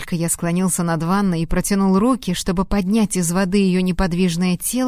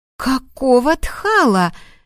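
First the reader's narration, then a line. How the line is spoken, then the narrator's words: Frightened scream. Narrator (Russian): закричала она испуганно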